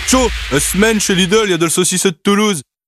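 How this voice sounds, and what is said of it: Northern French accent. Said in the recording (French): “avec un accent du Nord”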